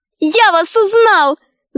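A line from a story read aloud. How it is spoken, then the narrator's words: Shouting. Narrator (Russian): закричал он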